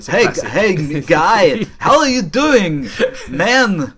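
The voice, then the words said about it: Bad fake New York accent. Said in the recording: “I don't know what accent he's trying to do. It's unreal. ... it's like Dick Van Dyke ... like Jason Statham being transported down America. It was that bad.”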